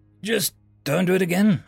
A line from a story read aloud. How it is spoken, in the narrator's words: I chuckled